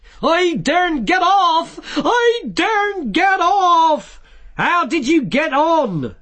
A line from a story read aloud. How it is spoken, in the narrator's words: shouted Vimes